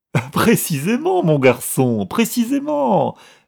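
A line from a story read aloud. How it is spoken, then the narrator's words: Laughing heartily. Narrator (French): répondit Milord en riant aux éclats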